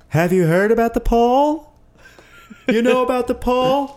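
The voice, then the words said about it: Imitates another person's voice. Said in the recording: “my Sean impression is just going to be a really like a ... Jerry Seinfeld. ... Thrift store Jerry Seinfeld. ... I gotta get a better Jerry Seinfeld.”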